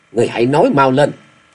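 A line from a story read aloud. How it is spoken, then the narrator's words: Cold bark. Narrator (Vietnamese): Y lạnh lùng quát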